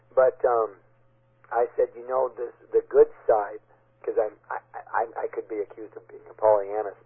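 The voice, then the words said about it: Hoarse, worn-out voice. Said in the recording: “Maybe that's why my voice is gone.”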